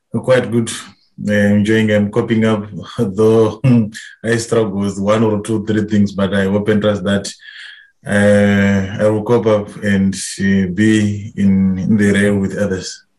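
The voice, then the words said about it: Zimbabwean-accented English. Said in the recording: “familiarization placement from the Reformed Church in Zimbabwe ... If you're struggling to understand ... accent”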